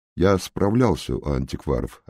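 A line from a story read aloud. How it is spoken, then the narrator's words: Plain. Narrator (Russian): ответил сыщик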